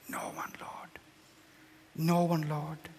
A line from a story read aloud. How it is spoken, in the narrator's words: She whispered